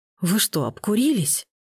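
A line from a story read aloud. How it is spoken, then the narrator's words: Hoarse question. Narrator (Russian): После паузы, сипло спросил Митя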